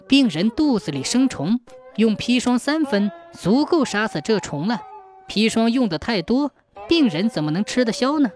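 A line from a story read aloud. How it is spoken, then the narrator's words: Plain, old man. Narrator (Chinese): 老和尚说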